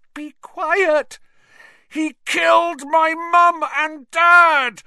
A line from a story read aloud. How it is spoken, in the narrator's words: Harry roared